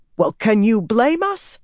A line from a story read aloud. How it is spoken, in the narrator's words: she snapped